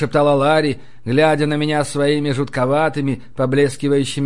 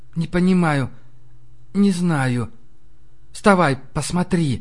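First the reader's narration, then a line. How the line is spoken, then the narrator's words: Whisper. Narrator (Russian): все так же прошептала Демонесса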